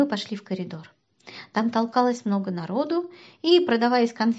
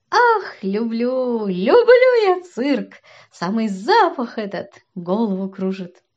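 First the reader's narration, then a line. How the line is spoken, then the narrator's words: Laughing. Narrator (Russian): засмеялся и сказал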